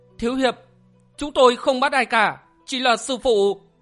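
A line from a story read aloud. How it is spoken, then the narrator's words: Frightened women. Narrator (Vietnamese): Hai nữ nhân sợ hãi nói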